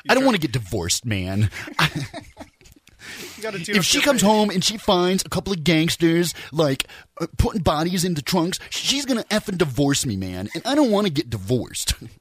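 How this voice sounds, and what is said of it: Imitates another person's voice. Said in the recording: “I used to do a mean Quentin impression”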